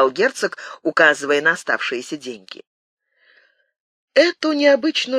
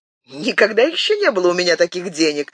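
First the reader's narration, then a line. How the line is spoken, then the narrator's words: Cheerful. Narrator (Russian): весело сказал Филипп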